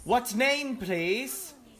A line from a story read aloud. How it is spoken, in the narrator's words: shouting